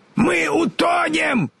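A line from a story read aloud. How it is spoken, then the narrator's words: Shouting. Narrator (Russian): закричал Страшила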